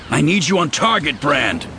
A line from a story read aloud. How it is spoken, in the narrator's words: he growled into his link